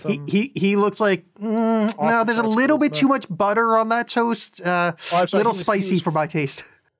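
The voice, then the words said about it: Put-on Nebraskan voice. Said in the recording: “That's my impression. That's my impression of Nebraska.”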